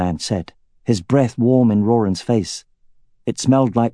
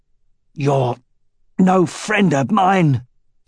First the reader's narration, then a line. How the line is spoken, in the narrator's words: said Roran, grunting as he bore down on his right arm and slowly pushed the dagger toward the man's side